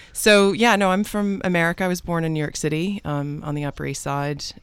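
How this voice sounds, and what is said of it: Mixed North American-British accent. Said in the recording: “that's not a um a plummy British accent ... I am uh, North American, although my husband calls me Ameripean because I have this kind of mixed accent.”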